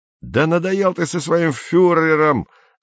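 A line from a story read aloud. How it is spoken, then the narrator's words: Angry yelling. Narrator (Russian): заорал на него Андрей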